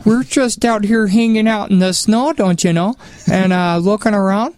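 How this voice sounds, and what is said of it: Exaggerated Minnesota accent. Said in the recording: “I kind of sound like Minnesota, so I just don't know what to do with my accent.”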